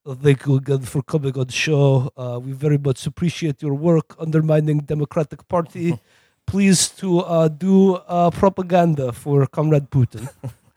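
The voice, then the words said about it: Thick put-on Russian accent. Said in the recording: “had a thick Russian accent.”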